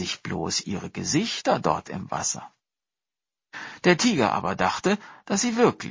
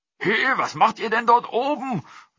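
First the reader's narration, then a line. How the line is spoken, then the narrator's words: Calling. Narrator (German): rief er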